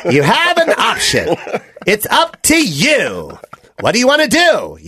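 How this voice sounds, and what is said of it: Jon Lovitz impression. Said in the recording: “I'm talking like John Lovitz to close the show.”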